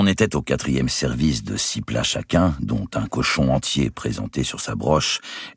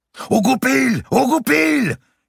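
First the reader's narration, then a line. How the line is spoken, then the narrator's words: Lords yelling. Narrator (French): hurlèrent les seigneurs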